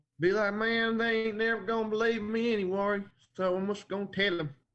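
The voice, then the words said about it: Poor put-on Texas accent. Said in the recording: “That's probably a terrible Texas accent”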